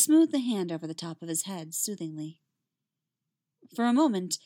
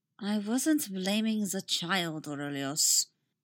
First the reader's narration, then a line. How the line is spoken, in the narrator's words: Nima said coolly